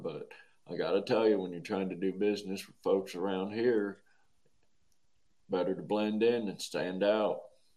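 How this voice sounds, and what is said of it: Heavy rural Southern accent. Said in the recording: “Sorry to slip into the heavy accent there. ... are we in Hazard County right now? ... some of these good old boys up here ... hear the accent and think that sounds just dumber than fuck”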